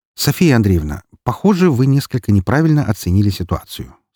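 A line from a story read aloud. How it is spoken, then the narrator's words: Calm. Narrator (Russian): спокойно произнес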